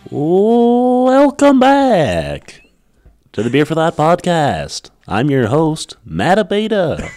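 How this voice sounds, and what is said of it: Announcer-style radio voice. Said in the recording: “that's a great radio voice.”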